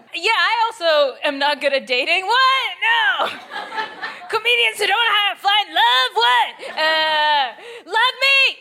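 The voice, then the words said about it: Canadian accent. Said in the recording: “My accent is Canadian... voice Canadian”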